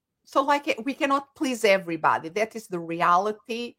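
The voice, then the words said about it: Noticeable non-native accent. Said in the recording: “they say me, I love your accent ... her mom has an accent”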